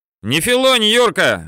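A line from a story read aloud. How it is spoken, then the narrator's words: Playful shout. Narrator (Russian): задорно крикнул Саша Каштенков, первый номер пулеметного расчета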